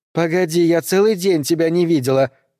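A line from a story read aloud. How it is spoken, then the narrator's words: Shouting. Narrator (Russian): крикнула она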